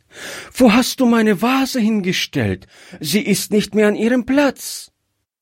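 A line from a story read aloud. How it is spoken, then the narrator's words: Frightened child crying out. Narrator (German): rief das Kind erschrocken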